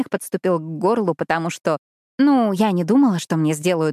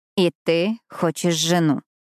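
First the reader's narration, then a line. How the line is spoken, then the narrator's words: Slow. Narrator (Russian): медленно сказала я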